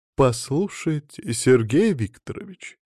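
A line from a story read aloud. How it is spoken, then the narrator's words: Ingratiating repetition. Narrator (Russian): вкрадчиво повторила она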